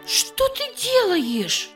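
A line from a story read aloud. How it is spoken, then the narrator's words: Exclaiming. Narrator (Russian): воскликнула Эстер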